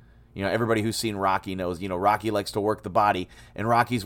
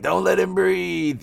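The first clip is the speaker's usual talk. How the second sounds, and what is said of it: Imitates a movie character's voice. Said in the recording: “that's my impression of Mick”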